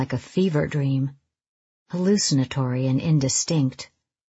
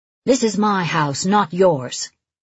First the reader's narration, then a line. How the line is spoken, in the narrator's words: she says fiercely